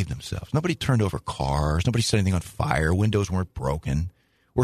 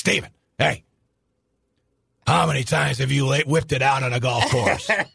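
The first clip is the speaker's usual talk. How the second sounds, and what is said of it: Impression of Hannafin. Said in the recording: “Good impression”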